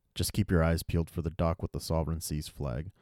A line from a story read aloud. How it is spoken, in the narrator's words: replied Nelson